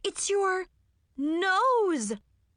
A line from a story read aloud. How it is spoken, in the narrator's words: I gasped